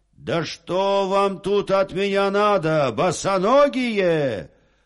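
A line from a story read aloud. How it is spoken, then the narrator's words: Soldier shouting. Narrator (Russian): Солдат закричал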